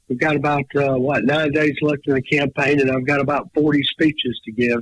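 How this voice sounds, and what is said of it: Strained, fading voice. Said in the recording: “losing my voice, so if I sound a little peculiar”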